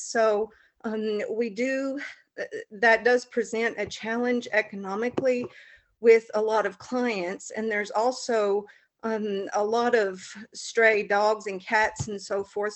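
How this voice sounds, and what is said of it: Southern US accent. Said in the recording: “if you can't tell by my accent, we're in a small rural area in the southern United States”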